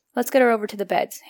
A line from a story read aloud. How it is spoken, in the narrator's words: Hannah instructed quickly